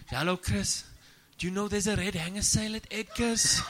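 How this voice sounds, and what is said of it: Put-on accent, admittedly not good. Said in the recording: “Pardon the accent because I'm not good at accents.”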